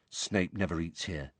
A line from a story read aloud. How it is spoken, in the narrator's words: Ron told Harry quietly